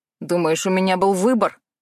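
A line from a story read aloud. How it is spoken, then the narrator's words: Scornful male snort. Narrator (Russian): фыркнул он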